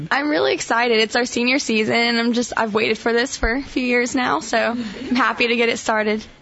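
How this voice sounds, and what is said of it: Strained, partly lost voice. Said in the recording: “I still have my voice gone from this weekend ... you lost your voice this weekend”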